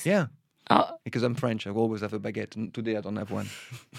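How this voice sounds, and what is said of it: French accent. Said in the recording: “I love your accent.”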